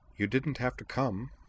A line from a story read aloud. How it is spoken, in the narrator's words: observed tall, cool Juri Arisugawa, dryly